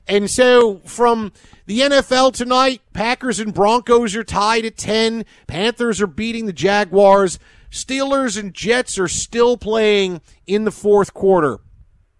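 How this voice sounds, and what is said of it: Put-on Pennsylvania accent. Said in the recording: “Why is he doing his Philly accent? ... it's a greater Pennsylvania accent. It's Pittsburgh. It's Philadelphia.”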